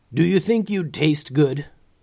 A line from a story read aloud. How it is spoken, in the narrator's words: growled the gray dragon